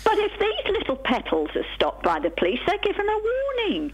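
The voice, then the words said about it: Put-on posh English accent. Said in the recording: “You sound very posh ... I'm trying to be posh. I'm not always like this”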